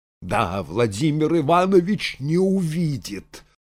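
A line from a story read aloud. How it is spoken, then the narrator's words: Angry reply. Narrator (Russian): злобно ответила Анна Григорьевна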